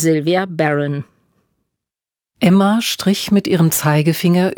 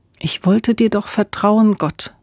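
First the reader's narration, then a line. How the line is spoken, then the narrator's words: Quiet prayer. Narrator (German): betete sie leise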